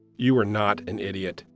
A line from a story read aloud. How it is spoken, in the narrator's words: said firmly